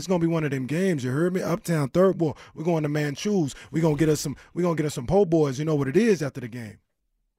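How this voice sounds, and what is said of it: Put-on New Orleans accent. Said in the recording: “my favorite impression ... That's not even an impression of anybody ... I just love the New Orleans sound”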